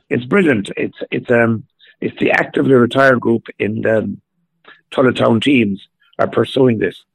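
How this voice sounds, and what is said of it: Slightly hoarse voice. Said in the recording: “my voice is a little bit hoarse at the moment.”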